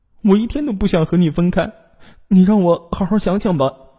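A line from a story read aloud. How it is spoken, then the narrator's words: Crying. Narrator (Chinese): 龙玉洁哭着说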